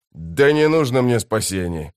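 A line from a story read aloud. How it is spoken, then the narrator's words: Growling. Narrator (Russian): прорычал Сон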